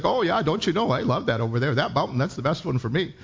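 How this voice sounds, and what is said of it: Imitated Minnesota accent. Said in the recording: “I've been away from Minnesota for a while. But they have this accent, right?”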